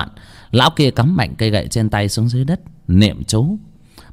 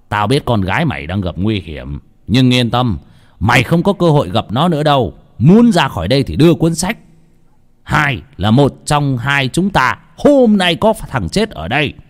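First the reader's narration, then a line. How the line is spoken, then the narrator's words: Loud laughter. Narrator (Vietnamese): Lão Mo cười to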